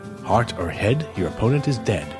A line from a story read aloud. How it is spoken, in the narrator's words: she muttered